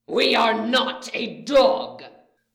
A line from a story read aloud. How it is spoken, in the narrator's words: Riot snarls